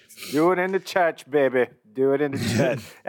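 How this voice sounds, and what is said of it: Weird church lady voice. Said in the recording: “That's like my weird like church lady voice ... That's a bad impression. That's not good.”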